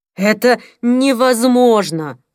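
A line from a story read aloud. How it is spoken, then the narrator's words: Groaning. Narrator (Russian): простонал Пол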